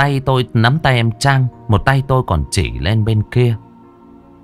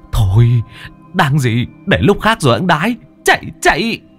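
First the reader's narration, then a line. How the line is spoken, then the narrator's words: Half-shouting. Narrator (Vietnamese): Tôi nói như hét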